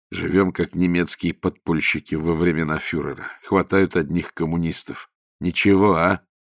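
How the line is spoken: Through gritted teeth. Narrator (Russian): Солоп процедил сквозь зубы

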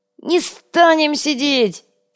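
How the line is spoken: Shrieking. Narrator (Russian): теперь завизжал Йога

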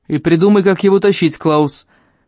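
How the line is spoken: Headman shouting after someone. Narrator (Russian): крикнул староста вслед уходящему

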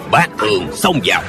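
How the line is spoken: Shouted command. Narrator (Vietnamese): tên thủ lãnh bọn ma giáo quát lên

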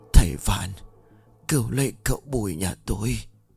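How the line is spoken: Strained whisper. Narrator (Vietnamese): Ông cố gắng hắng giọng thì thào rồi đáp

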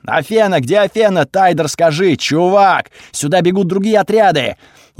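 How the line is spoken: Said loudly. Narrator (Russian): громко сказал

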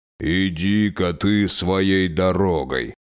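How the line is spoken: Grumbling. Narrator (Russian): проворчал он

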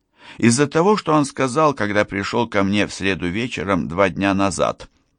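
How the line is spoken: Sarcastic reply. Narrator (Russian): отвечаю я язвительно

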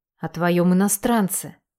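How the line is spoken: Whisper. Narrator (Russian): шептала мама

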